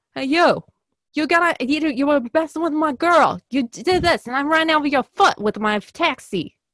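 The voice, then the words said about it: Exaggerated New York accent. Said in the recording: “that's just like an extreme New York accent”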